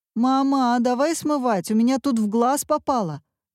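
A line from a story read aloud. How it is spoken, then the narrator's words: Shout. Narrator (Russian): закричал Вася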